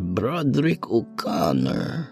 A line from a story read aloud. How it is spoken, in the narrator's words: Madame Ona muttered